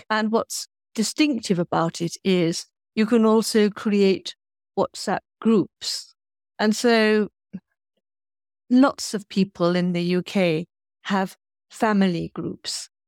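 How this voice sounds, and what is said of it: English accent. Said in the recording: “as you will have realized from my accent, I'm in England”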